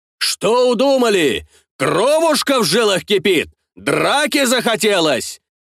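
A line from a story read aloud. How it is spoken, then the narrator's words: Shouting while approaching. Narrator (Russian): кричал Картамонов на подходе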